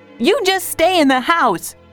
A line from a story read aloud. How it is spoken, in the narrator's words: said Joe angrily